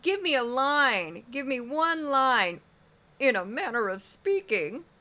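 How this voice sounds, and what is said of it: Imitates another person's voice. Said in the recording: “my Steve Doocy impression”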